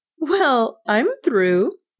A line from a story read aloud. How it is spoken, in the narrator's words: Nan laughed